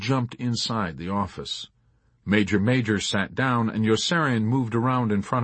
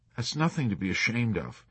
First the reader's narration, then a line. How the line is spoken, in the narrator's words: Major counseled him kindly